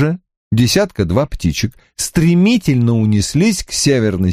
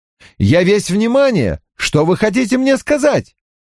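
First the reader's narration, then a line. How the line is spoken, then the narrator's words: Shouted. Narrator (Russian): крикнул я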